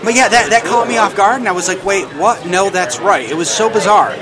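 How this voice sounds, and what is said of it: New York accent. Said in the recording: “I'm from New York, and I think that this is a New York accent... This is the accent, exactly.”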